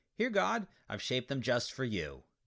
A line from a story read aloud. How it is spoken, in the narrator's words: the thief cried